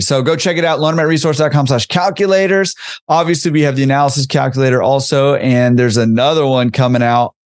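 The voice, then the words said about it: Strained, hoarse voice. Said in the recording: “I'm losing my voice over here.”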